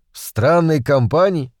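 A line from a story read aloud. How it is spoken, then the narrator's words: Rude interruption. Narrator (Russian): грубо перебил я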